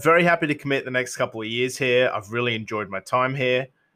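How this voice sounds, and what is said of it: Accent resembling a New Zealander's. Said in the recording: “kind of has an accent that kind of resembles Michael Boxall's”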